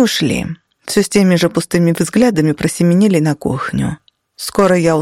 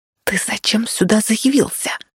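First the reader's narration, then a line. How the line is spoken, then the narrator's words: Angry whisper. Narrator (Russian): сердито зашептала я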